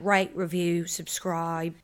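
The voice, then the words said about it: Put-on British accent. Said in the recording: “Right in my British accent.”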